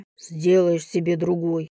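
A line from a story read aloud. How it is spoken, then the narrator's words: Muttered. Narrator (Russian): буркнул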